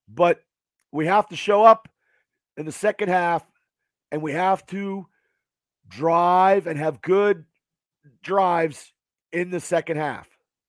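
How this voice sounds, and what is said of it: Hoarse, strained voice. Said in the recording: “losing my voice ... It's hard screaming.”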